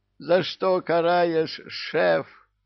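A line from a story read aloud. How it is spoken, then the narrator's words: Howling devils. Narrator (Russian): взвыли черти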